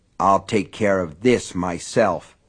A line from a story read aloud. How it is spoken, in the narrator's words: Norris said in a low, grim voice